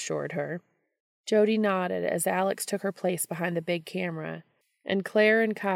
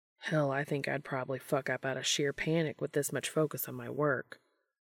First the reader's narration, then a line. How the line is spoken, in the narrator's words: mutter